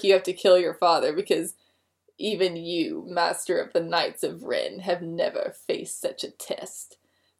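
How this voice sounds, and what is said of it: Bad Snoke impression. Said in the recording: “really bad Snoke impression”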